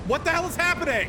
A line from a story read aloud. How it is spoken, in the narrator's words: I yelled at him over the wind blast